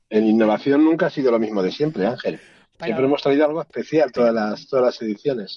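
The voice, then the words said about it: Deep hollow voice from beyond the grave. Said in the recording (Spanish): “te escuchamos así con voz de ultratumba”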